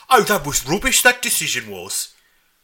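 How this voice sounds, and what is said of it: Put-on Brummie accent. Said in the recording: “probably more of a Brummie accent, wouldn't I?”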